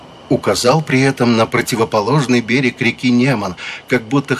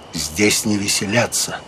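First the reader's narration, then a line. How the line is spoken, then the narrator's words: Quiet male voice. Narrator (Russian): Агюст де Калинкур тихо сказал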